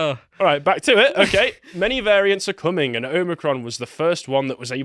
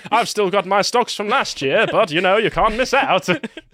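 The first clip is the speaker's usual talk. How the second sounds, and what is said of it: South Park style Canadian voice. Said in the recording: “What accent is this? ... It's a South Park voice. ... Slowly turning Canadian.”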